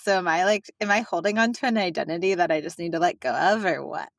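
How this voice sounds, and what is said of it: Valley Girl accent. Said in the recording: “is such a Valley Girl accent... I guess I do hear your Valley Girl accent still”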